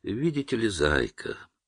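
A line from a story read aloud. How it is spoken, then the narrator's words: Very calm, controlled. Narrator (Russian): сказал он очень спокойно, демонстрируя владение собой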